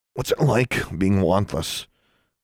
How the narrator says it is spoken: Alexandra asked in a choked voice

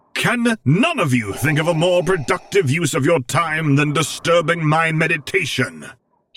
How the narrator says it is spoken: He roared

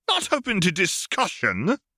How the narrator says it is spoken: Remus exclaimed

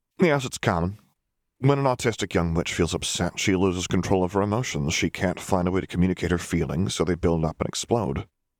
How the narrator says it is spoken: the doctor said

